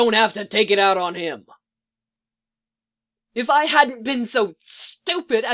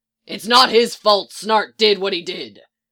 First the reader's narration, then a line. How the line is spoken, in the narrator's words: Mick says gruffly